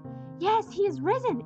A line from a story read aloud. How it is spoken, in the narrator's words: answered one of the men breathlessly